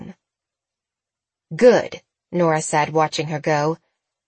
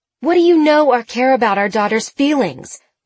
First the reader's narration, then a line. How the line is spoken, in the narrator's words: Jenna yelled